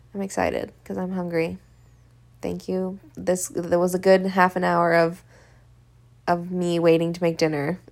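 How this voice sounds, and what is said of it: Tired voice with vocal fry. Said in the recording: “my voice is tired. As you can hear. With all this vocal fry.”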